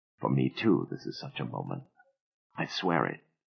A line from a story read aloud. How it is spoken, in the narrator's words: Ben whispered